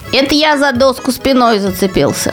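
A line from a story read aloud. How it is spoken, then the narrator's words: Plain. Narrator (Russian): сказал Незнайка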